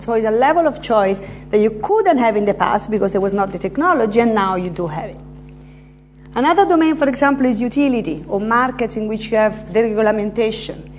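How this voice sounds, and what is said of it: Slight Italian accent. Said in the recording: “I'm Italian, as you may have noticed from this slight accent that I have.”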